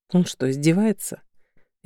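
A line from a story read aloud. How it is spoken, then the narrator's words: Icy tone. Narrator (Russian): ответила ледяным тоном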